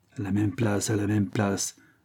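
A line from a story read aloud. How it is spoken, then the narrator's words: Grumbling. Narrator (French): bougonne le colleur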